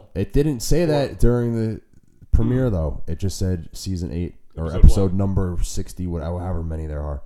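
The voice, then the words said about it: Raspy, congested voice. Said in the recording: “Pardon my raspy voice today. Allergy season is also here. ... I'm just a little congested.”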